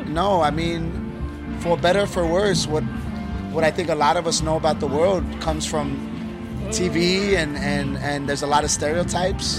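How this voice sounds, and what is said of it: Foreign, non-Australian accent. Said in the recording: “I don't know if you could tell by my accent, but I've never been here in my life.”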